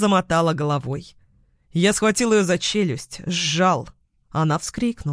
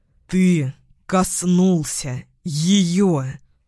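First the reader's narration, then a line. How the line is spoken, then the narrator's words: Low growling voice. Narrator (Russian): Голос был низкий, рычащий, знакомый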